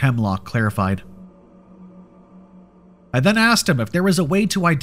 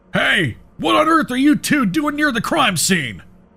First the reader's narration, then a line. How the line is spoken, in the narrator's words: a voice yelled